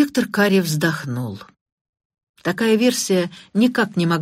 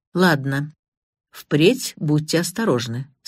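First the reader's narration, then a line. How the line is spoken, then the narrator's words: Plain. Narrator (Russian): сказал он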